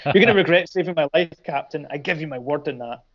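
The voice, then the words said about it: Put-on villain accent. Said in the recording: “I don't know why I'm doing that when he's Swiss, that accent”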